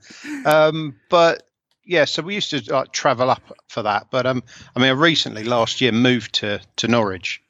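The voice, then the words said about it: Essex English accent. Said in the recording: “I'm an Essex boy, as you can tell by the... As you can tell by the accent.”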